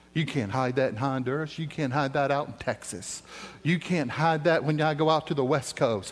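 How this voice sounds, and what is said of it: Southern US accent. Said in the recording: “your accent gives you away. I'm from the South. You can't hide that... everybody will talk to me about how I talk funny”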